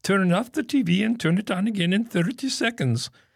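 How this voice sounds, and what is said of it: Phony exotic help-desk accent. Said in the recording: “people don't trust help desk people without exotic accents who seem to be based far, far away ... please knock off the phony accent”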